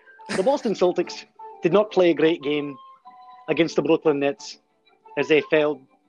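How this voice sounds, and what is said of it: Put-on Irish accent. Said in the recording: “only for as long as he can maintain a convincing Irish accent”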